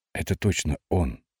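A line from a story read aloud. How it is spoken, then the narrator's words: Quiet. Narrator (Russian): сказал негромко Белый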